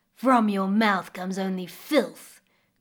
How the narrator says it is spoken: growled the crocodile

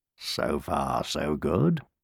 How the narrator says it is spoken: purred, feeling rather pleased with himself

